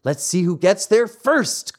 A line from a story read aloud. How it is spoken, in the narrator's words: cried Pinocchio